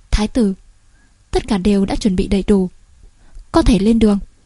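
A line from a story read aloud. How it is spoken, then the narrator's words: Softly spoken. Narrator (Vietnamese): mở miệng khẽ nói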